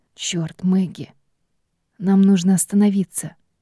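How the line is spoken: Hoarse breathless exhale. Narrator (Russian): Хрипло выдохнул Рой

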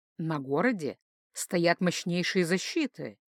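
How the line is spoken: Quiet remark. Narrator (Russian): тихо заметил Тайо

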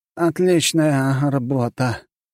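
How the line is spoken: Groaning. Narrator (Russian): простонал Уоррен

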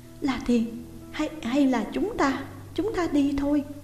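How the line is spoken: Shuddering, frightened. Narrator (Vietnamese): Tôi rùng mình một cái sợ hãi nói

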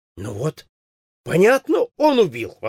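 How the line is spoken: Exclaiming. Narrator (Russian): воскликнул Ястребов

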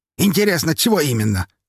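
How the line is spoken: Smirking grunt. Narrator (Russian): хмыкнул Павел

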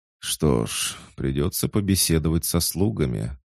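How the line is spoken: Mutter. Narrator (Russian): пробормотал

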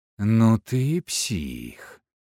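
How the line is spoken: Drawn-out admiring exhale. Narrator (Russian): протяжно выдохнула Алена, и в глазах ее появилось настоящее восхищение

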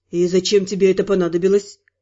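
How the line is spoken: Quiet question. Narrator (Russian): Негромко спросил Спир

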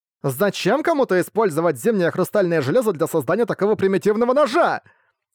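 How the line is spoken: Exclaimed, female monster. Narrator (Russian): воскликнула девушка-монстр

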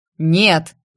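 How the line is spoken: Two men barking together. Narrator (Russian): В два голоса рявкнули мужчины

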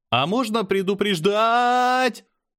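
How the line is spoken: Startled yell. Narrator (Russian): заорал я, чувствуя, как нас подбрасывает вверх

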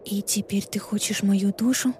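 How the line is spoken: Barely audible whisper. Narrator (Russian): Мой голос опустился до еле слышного шепота

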